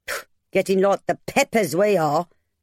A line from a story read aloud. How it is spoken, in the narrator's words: Mabel grumbled